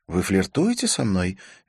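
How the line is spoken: Cheerful question. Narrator (Russian): весело спросила она

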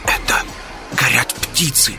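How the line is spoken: Whisper. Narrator (Russian): прошептал Вольф

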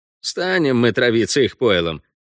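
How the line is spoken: Snorting. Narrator (Russian): Гонза фыркнул

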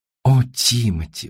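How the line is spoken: Sighing. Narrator (Russian): вздохнула Анжелина Маргарита

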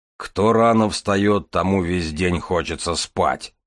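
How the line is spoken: Grumbled. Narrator (Russian): проворчал Железовский

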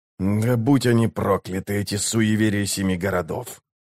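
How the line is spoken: Quiet cursing. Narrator (Russian): тихо выругался он

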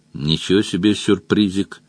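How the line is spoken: Grumbled. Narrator (Russian): буркнул Мадж

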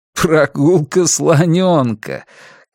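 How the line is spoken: Laughing. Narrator (Russian): Клай рассмеялся

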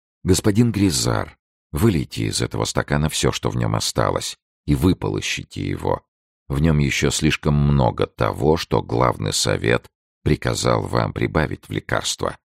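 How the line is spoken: Quiet speech. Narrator (Russian): Арамис тихонько сказал

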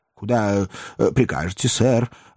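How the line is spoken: Timid inquiry. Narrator (Russian): робко осведомился Уилкинс

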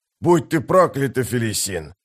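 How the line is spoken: Growling curse. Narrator (Russian): зарычал бывший жрец

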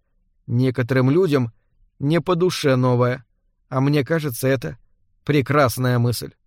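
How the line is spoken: Quiet. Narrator (Russian): Торгунна тихо сказала

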